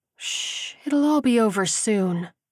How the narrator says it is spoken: cooed

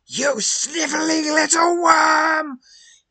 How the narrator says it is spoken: shrieks

